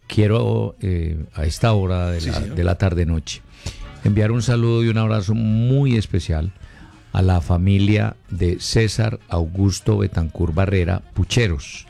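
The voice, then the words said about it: Switches to a serious voice. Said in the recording (Spanish): “cambiando de voz y poniendo la voz seria”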